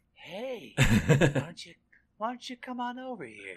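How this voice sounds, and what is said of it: Creepy old man voice. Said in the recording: “talking like a really creepy old man ... that terrible, creepy voice”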